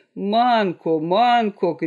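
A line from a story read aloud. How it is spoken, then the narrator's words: Group shouting. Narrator (Russian): кричали они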